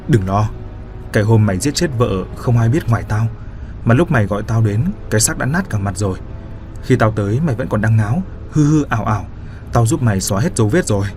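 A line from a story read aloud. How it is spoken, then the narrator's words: Soft. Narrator (Vietnamese): Hân nói khẽ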